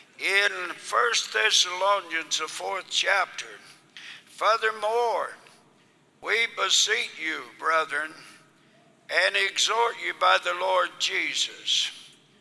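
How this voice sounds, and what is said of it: Voice in poor condition. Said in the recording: “my voice is bad ... apologize for my voice being so bad”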